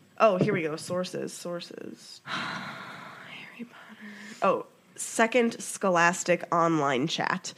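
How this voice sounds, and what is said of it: Congested voice, audible breathing. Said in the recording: “Sorry if anybody can, like, hear me breathing. ... I have a cold, so I, like, can't breathe through my nose.”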